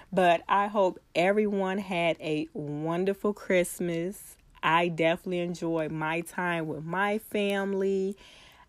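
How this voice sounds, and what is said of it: Sick voice with a cold. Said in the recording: “I'm trying so hard not to sound sick... I do have a cold, so you may hear it in my voice.”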